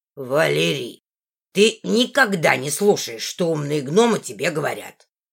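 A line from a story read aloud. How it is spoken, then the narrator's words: Grumbling. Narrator (Russian): ворчал он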